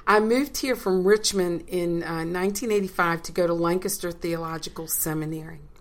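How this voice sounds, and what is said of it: Slight regional accent. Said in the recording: “We do detect a hint of ... an accent”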